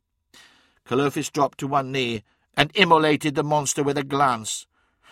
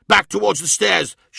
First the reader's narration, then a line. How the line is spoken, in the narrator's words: shouted Kalofis